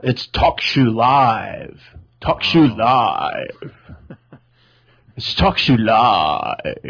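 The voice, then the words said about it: Imitates a show announcer's voice. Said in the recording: “my impression of Talk Shoe Live”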